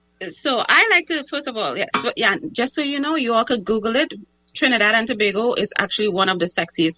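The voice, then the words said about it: Trinidadian-accented English. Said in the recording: “I'm the one with the sexy accent ... you do have a very sexy accent”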